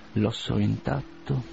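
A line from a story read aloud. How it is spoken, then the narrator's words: Muttering through teeth. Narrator (Italian): mormorava tra i denti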